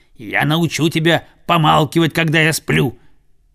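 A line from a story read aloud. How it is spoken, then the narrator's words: Growled. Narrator (Russian): прорычал Цезарь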